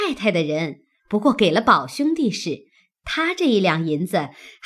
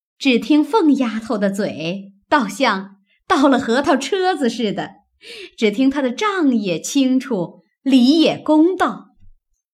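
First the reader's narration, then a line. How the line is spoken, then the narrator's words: Laughing. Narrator (Chinese): 薛姨妈笑道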